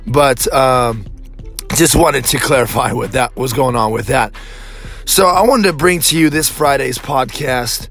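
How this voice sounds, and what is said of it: Strained, struggling voice. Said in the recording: “apologize for my voice. ... I use my voice for my job, so I am actually struggling right now.”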